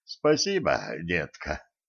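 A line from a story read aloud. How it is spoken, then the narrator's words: Exhaled while chewing. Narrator (Russian): выдохнул Кощей, зажевывая зелень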